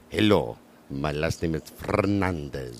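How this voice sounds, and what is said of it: Put-on suave Spanish accent. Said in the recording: “we all love an accent”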